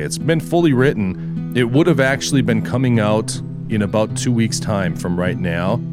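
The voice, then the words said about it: Slightly rough, hoarse voice. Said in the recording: “You can hear my voice is still a little rough ... a pretty nasty sinus cold that led to a pretty bad chest cold ... it really trashed my voice”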